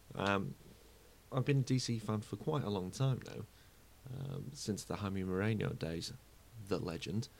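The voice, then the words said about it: British accent. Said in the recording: “I am from the UK, as you can probably already imagine, with this accent”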